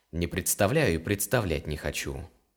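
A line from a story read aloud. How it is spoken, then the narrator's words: Cold reply. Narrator (Russian): холодно ответил Илар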